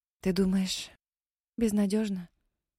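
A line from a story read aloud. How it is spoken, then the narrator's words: Suddenly hoarse voice. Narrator (Russian): Внезапно севшим голосом спросила Мэри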